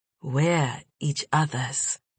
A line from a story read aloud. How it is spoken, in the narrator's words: Lakatsi breathed